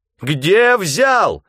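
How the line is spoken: Screaming at full voice. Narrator (Russian): изо всех сил кричала Лизавета Васильевна

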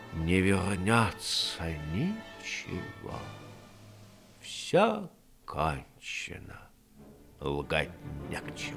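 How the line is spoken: Muttered again. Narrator (Russian): Опять он пробормотал

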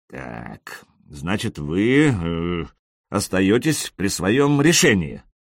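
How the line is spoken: Grim. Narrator (Russian): сказал мистер Макгрегор мрачно

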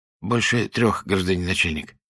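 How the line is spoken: Timid reminder. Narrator (Russian): робко напомнил Дерсет

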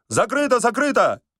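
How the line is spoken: Hasty shout. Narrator (Russian): поспешно крикнул Остап

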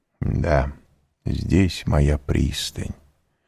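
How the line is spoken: Quiet. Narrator (Russian): он тихо прибавил

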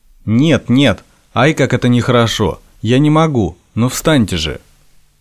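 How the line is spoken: Stern. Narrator (Russian): Она строго заговорила

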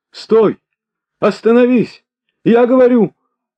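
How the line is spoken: Piercing, breathless, imposing shouts. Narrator (Russian): вскрикивал он пронзительно и, опять что-то задыхаясь, кричал с внушительными интонациями

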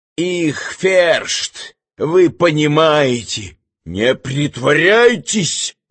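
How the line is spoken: Menacing but nervous. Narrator (Russian): Грозно и чувствуя холод под ложечкой, продолжал Иван

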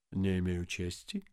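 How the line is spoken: Muttering. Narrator (Russian): пробормотал он

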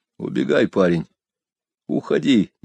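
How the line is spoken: Quiet, urgent. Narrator (Russian): негромко сказал я

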